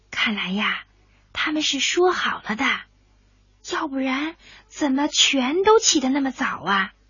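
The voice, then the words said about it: Quiet hushed speaking. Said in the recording (Chinese): “小声的说着话，好像生怕声音大了吵醒了他们的孩子似的”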